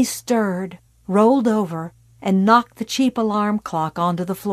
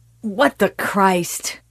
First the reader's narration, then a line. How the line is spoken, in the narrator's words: he said thickly